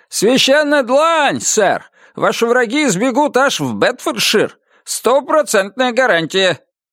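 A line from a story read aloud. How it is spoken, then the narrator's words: Shouting. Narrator (Russian): прокричал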